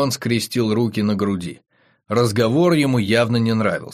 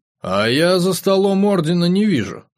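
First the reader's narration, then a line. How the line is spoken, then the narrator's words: Gloomy. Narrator (Russian): мрачно сказал Вагон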